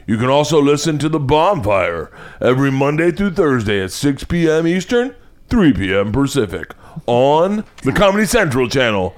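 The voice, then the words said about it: Impression of Kyle Kinane's announcer voice. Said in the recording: “Do you know whose voice I'm doing? ... Kyle Kinane's. ... Kyle Kinane does the voice for Comedy Central.”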